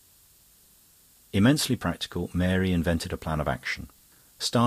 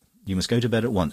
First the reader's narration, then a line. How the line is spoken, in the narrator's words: she said